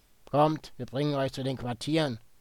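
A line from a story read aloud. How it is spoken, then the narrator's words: Croaking, in Czech. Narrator (German): krächzte einer davon auf Tschechisch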